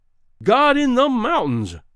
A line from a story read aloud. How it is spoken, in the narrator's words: cried Greenbrier